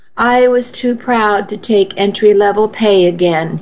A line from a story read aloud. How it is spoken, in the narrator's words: he said